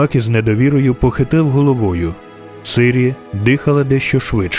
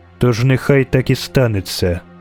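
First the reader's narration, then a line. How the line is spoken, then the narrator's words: Curt and cold. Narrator (Ukrainian): сказала Ейтне, коротко і холодно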